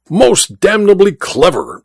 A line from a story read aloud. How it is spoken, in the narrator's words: exclaimed the Duke